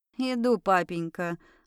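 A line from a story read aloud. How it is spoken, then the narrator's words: Wry snort. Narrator (Russian): хмыкнула я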